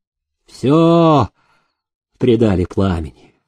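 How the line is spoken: Sleepy reply. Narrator (Russian): сонно отозвался приказчик

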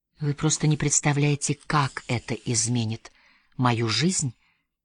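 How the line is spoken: Near whisper. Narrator (Russian): почти прошептала

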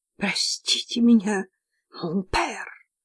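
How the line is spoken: Hoarse wheeze. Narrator (Russian): просипела

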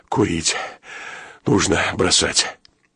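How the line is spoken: Mutter. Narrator (Russian): Тяжело опустившись на ноги, он пробормотал

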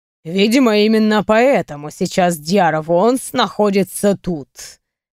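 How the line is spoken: Skeptical snort. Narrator (Russian): хмыкнул Кьяр

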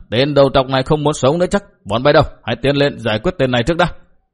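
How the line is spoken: Booming laugh, loud shout. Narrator (Vietnamese): Phó quản đái bỗng cất tiếng cười hô hô quát lớn

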